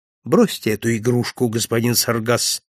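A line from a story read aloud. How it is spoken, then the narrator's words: Calm. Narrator (Russian): спокойно сказал я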